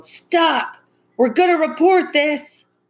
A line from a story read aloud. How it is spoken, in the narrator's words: loud voices shouting in the dark distance